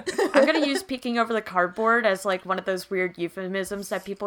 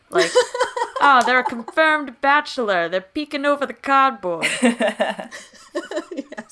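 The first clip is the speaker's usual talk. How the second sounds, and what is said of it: Put-on Boston gangster accent. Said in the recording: “Got a Boston accent there for some reason, but sure. ... I think that's what I think gangsters sound like.”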